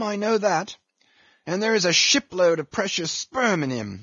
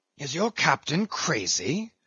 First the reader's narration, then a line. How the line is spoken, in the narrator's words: whispering Fadala